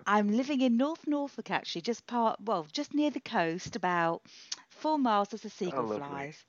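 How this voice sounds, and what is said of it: British accent. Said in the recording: “listen to that accent. You're so British.”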